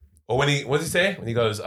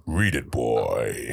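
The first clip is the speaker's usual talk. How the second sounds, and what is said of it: Put-on deep voice. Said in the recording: “he's got that deep voice ... I got a deep voice. I do. You've not heard me do loads of deep voices”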